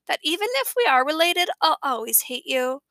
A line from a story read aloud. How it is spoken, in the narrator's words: she said in her kissy face voice